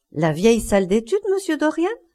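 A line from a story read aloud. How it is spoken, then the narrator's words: Exclaimed. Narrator (French): s'exclama-t-elle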